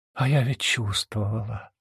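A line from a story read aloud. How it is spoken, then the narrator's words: Whisper. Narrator (Russian): прошептала она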